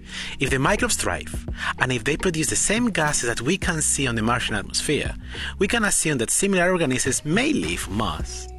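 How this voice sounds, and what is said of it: Spanish accent. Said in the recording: “As you can hear in my voice, I am not Scottish or British, but instead, I come from a very small village in the middle of Spain.”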